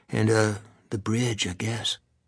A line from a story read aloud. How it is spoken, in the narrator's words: Adam whispered finally